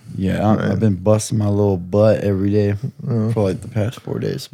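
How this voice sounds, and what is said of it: Tired-sounding voice. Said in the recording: “My voice is very tired. ... Yeah, you're actually tired.”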